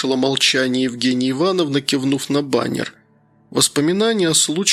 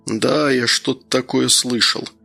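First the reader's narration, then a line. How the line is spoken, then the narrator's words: Mumbled. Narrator (Russian): пробормотал Слава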